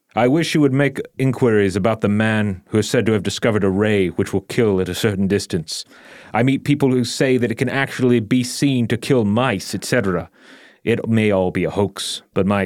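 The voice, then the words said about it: Winston Churchill impression. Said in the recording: “you do a Winston Churchill voice?”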